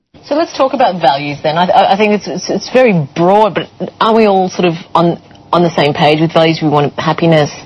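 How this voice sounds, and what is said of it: Australian accent. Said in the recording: “this was from a program from Australia. You could tell by the accent of the moderator there.”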